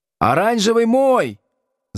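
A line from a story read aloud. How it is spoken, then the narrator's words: Yelling from above. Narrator (Russian): завопил сверху Тухметдинов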